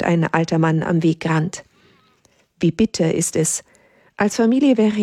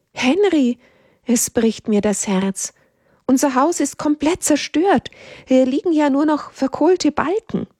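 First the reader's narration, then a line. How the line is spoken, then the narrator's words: Mother calling out. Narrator (German): Die Mutter ruft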